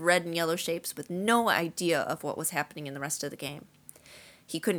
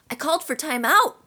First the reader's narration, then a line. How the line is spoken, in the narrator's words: Wood roared at his team